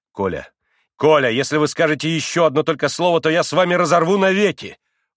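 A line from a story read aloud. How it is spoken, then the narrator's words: Commanding shout. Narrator (Russian): властно крикнул Алеша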